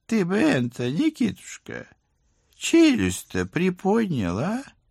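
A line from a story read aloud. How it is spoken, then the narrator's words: Grumbling old woman's voice. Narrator (Russian): ворчливым старушечьим голосом сказал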